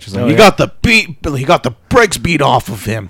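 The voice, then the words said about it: Imitates another person's voice. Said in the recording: “That's my Booker T impersonation.”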